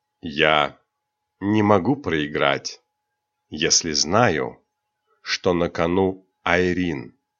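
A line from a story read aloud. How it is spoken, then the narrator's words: Calm. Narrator (Russian): спокойно ответил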